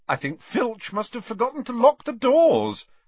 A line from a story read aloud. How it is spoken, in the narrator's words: said Harry cheerfully